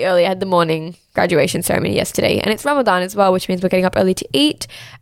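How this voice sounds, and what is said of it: Tired, crackly, rusty voice. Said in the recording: “I am so tired. You guys can probably hear it in my voice, ... sounding a little crackly, a little rusty. I'm just like exhausted”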